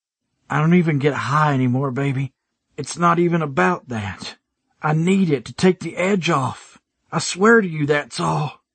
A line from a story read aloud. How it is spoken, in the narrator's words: I rasped out, trying like hell to keep it together